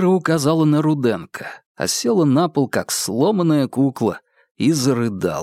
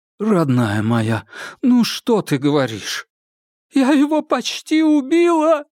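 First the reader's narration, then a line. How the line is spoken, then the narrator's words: Muffled sobbing. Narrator (Russian): прорыдала Кира, уткнувшись ему в плечо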